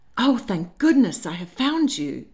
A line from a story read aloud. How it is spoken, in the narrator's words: April exclaimed in an urgent whisper